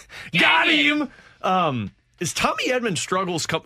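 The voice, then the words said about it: Voice peaks up in pitch. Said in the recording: “my voice just peaked there ... You're emotional about it”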